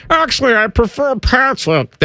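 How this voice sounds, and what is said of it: New York Kermit-like voice. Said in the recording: “That's my impersonation. ... That's pretty good. ... Why did you sound like a New York Kermit? ... Rocky and Kermit.”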